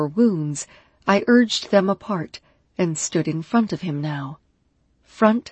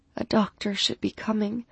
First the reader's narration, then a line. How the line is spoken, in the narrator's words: I murmured, my voice thick from so much damn love for this man